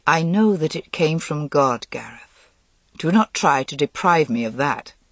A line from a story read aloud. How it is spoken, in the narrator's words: Lancelot said quietly